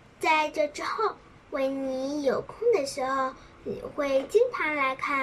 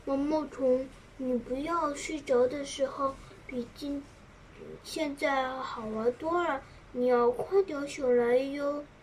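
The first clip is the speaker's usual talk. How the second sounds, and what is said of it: Soft, quiet whispering voice. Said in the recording (Chinese): “小声的说”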